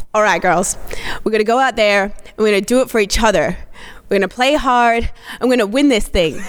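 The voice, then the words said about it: Coach's pep talk with put-on accent. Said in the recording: “Extra points for the accent ... Definitely extra points for the accent, though. That's really great.”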